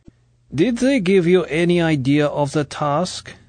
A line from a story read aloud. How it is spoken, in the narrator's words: Grant spoke Russian excellently, but with a thick accent